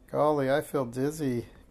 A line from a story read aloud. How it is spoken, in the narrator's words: giggled Minx